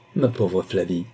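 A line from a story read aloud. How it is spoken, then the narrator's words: Dejected grumble. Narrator (French): grommela le désolé Numa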